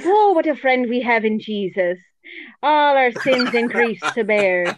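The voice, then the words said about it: Sung exaggerated Irish accent. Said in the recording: “we should really be singing it in an Irish accent ... I'll always sound like a leprechaun”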